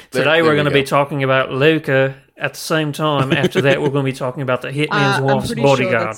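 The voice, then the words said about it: Put-on Australian accent. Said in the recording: “That's Australian cultural appropriation that you're doing right there”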